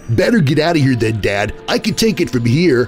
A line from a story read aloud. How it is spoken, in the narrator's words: Bucky said